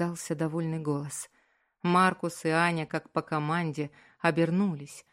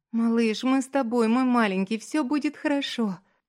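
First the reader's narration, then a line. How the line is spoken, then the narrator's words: Sobbing. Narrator (Russian): Рыдала она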